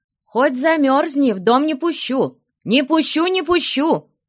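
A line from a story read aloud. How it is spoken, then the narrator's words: Shouting. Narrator (Russian): кричала она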